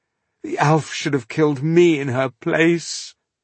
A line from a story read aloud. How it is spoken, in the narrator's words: Koira sobbed